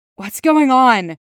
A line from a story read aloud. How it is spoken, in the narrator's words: rasps, throat dry